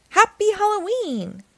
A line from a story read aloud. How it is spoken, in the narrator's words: cried